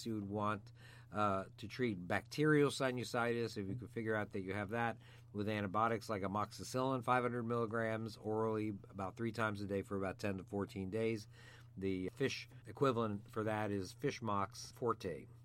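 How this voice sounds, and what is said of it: Slightly hoarse voice. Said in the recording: “I'm beginning to get laryngitis myself right now”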